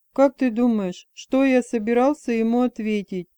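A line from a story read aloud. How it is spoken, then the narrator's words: Laughing. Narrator (Russian): Он смеялся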